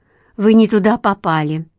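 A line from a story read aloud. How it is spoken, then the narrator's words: Relieved exhale. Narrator (Russian): с облегчением выдохнула Ника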